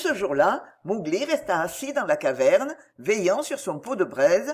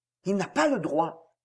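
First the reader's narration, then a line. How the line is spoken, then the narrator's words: Murmured. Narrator (French): murmura Bagheera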